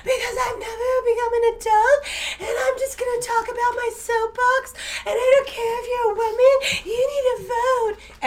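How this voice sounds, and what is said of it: Mocking baby voice. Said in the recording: “I have a baby voice”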